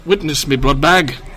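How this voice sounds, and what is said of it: Put-on British accent. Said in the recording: “I feel like it should be said with a British accent.”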